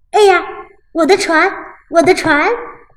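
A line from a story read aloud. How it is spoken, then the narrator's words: Child shouting. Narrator (Chinese): 小男孩大叫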